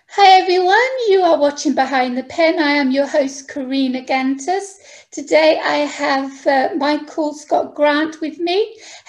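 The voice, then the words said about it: British accent. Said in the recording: “As you can tell from my accent, I'm actually from the UK.”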